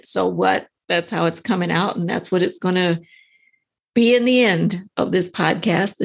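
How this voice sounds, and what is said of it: Scratchy voice. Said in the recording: “My voice is kind of scratchy.”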